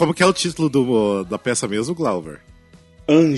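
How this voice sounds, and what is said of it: Usual voice. Nothing is said of it.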